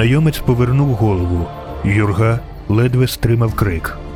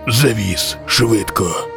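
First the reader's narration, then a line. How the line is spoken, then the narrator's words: Hoarse stranger. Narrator (Ukrainian): Прохрипів незнайомець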